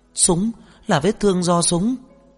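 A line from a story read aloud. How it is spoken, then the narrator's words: Sudden frightened cry. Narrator (Vietnamese): Ngụy Tinh Lâm bỗng sợ hãi la lên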